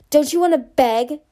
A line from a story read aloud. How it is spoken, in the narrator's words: Scarlet shrieked